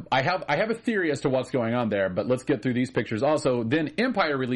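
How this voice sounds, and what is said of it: Usual voice. Nothing is said of it.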